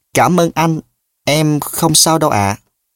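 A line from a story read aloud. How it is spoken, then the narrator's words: Trembling, shy reply. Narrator (Vietnamese): Một giọng nói run run và có chút bẽn lẽn đáp lời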